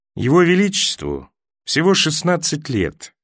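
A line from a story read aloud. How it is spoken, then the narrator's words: Soft remark. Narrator (Russian): мягко заметил Болтон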